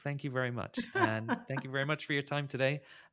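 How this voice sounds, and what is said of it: Very gentle accent. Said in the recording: “your very, very gentle accent”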